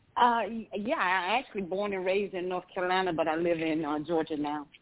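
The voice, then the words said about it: New York accent. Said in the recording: “you have a New York accent. That's what's so wild.”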